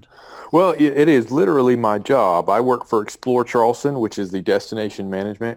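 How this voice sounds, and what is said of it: Southern American accent. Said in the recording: “Love that southern accent.”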